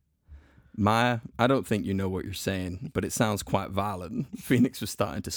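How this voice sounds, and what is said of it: Usual voice. Nothing is said of it.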